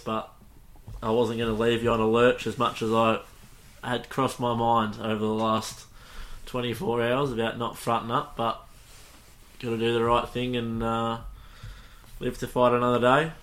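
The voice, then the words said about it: Flat, subdued, low-energy voice. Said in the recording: “I'm a bit flat, as you can hear in my voice”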